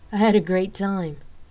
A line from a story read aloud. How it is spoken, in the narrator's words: Rain answered with a chuckle